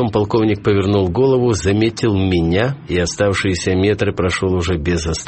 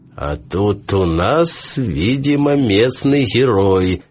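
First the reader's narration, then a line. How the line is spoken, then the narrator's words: Mocking. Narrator (Russian): сказал он насмешливо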